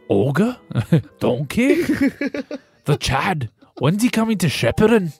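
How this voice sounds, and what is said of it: Bad put-on Scottish accent, Shrek. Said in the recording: “Do your best Scottish accent... Is Shrek, is he Irish or is he Scottish?... He's Scottish... That's horrible... You've offended everyone with that impersonation”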